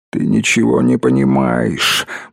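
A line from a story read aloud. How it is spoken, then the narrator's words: Anguished mumbling. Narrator (Russian): бормотала она, мотая головой, как раненое и страдающее животное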